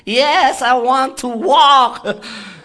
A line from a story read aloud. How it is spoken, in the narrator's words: he shouted back at me